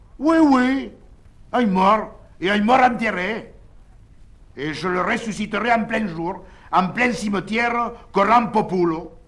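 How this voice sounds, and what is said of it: Speaks with a put-on accent. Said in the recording (French): “avec son accent”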